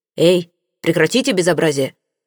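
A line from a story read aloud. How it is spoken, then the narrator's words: Menacing bark. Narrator (Russian): грозно рявкнул инспектор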